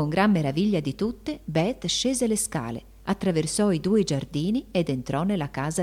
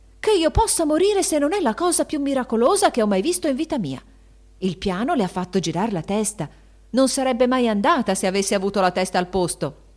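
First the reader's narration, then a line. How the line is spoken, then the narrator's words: Shouted. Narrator (Italian): gridò Anna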